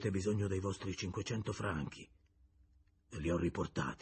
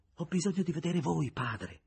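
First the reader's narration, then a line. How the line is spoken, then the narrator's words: Moved exclamation. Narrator (Italian): esclamò Julien commosso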